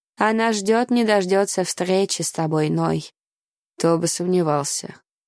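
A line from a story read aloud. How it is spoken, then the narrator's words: Gloomy reply. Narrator (Russian): мрачно отозвался тот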